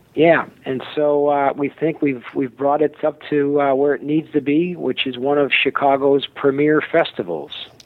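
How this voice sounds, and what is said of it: Chicago accent. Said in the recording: “You have the best Chicago accent.”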